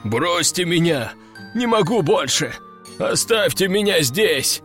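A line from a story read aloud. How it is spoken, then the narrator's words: Doomed moaning. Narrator (Russian): Обреченно стонал брак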